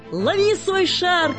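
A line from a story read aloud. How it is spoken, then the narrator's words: Laughing shout. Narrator (Russian): крикнул Ники со смехом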